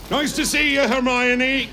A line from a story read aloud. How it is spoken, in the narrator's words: Hagrid said loudly